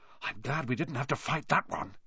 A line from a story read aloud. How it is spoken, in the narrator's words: Harry whispered